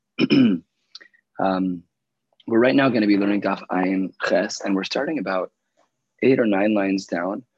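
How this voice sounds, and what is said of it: Quiet, weakened losing voice. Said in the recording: “Excuse my quieter than usual voice. ... I started losing my voice,”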